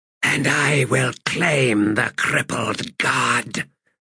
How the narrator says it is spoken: he hissed under his breath

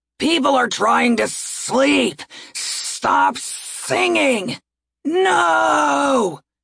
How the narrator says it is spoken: It was a roar from the crowd below

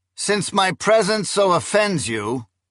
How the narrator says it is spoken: he said in a loud, clear voice

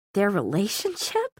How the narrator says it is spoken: Clary laughed out loud

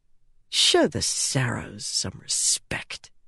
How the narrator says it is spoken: she muttered

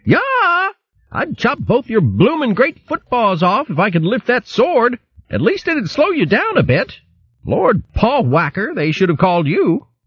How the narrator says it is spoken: yelling

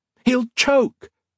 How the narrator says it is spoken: Colette shouted

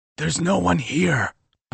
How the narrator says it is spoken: whispered so quietly I could barely hear myself

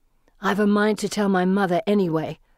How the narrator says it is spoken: Felicity snarls

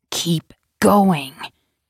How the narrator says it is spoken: commanded her in a low, choked voice

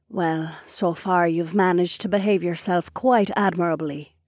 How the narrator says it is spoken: she purred

